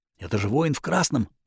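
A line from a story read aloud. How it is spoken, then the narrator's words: Frightened whisper. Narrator (Russian): прошептал Йосай, заметно побледнев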